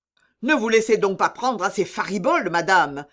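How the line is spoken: Exasperated doctor shouting. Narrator (French): cria le docteur exaspéré

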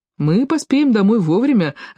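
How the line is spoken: Joyful. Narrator (Russian): радостно заметил брат Лаврентиус

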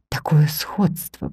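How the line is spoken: Whisper. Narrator (Russian): прошептал он

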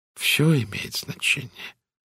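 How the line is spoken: Soft. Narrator (Russian): мягко сказал Пуаро

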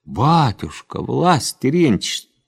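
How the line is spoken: Pleading. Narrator (Russian): так взмолилась Арина

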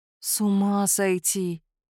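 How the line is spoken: Drawn-out, genuinely bewildered. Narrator (Russian): протянула я с искренним замешательством

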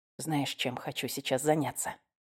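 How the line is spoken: Whisper into hair. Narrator (Russian): Прошептал в волосы

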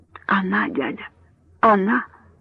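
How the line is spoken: Whispering. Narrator (Russian): прошептал доктор

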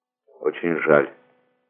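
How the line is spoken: Quiet but clear. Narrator (Russian): тихо, но внятно ответил со своего возвышения Франклин

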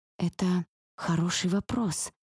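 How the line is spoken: Mumble. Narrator (Russian): бормочу я

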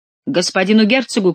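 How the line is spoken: Shouted. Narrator (Russian): крикнул главный ловчий

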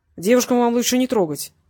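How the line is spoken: Through gritted teeth. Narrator (Russian): процедил Васильев

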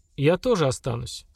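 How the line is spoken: Calm. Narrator (Russian): спокойно сказала Сильмара

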